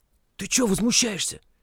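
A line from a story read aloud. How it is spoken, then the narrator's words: Whispered. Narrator (Russian): шепнул ему Витька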